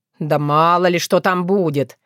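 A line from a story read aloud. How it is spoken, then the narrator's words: Grumbling. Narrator (Russian): ворчал он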